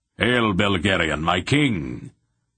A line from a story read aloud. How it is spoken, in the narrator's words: Brand, the Raven Warder, boomed